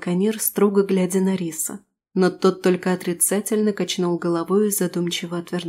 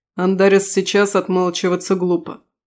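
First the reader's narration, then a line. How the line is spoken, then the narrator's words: Cold remark. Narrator (Russian): холодно заметил Алишер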